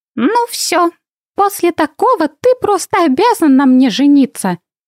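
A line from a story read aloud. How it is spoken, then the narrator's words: Mock-serious playful girl. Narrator (Russian): Серьезно изрекла шалунья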